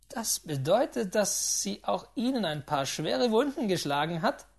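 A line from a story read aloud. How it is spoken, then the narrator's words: Involuntary laugh. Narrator (German): lachte unwillkürlich auf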